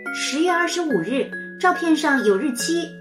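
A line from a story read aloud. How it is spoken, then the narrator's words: Loud answer. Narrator (Chinese): 妞妞第一个举手，大声回答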